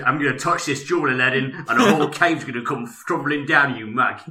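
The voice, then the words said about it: Jason Statham impression. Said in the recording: “as Jason Statham as Abu the Monkey”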